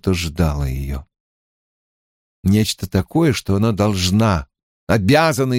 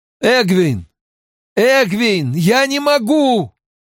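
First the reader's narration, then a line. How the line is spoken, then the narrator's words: Broken-off loud moan. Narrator (Russian): Ранд, осекшись на полуслове, громко застонал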